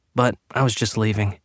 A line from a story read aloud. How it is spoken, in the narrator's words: he added quickly